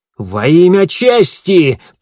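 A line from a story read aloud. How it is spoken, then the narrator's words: Roar. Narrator (Russian): проревел Гидеон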